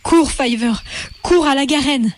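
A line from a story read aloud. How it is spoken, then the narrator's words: Exclaiming. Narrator (French): s'écria Hazel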